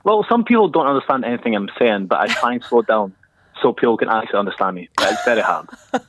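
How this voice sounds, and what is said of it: Scottish accent. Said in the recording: “you are a Scotsman, confirm? ... It's the accent that comes out of your mouth.”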